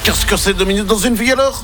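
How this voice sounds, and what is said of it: Put-on Belgian French accent. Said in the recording (French): “Pourquoi l'accent belge? ... j'avais envie de prendre l'accent belge”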